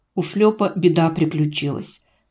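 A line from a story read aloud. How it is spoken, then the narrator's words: Calm reply. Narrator (Russian): спокойно отвечаю, глазом не моргнув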